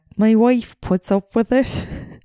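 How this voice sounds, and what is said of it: Attempted imitation of another's accent. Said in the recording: “I can't do that accent. ... That's not bad.”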